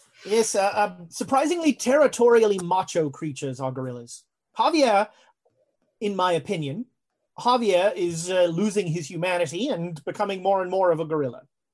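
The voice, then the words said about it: Put-on English accent. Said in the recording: “you've even maintained the accent. I'm rather impressed ... I certainly wasn't going to stop being English”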